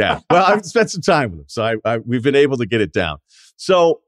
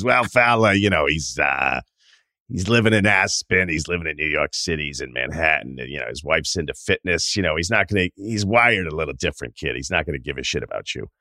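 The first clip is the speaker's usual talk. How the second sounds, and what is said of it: Close Boston-accented impression of Billy. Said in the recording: “That's a good Boston Billy impression,... that's pretty damn close.”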